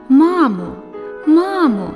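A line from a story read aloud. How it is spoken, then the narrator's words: Exclamation. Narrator (Ukrainian): вигукнув Мартин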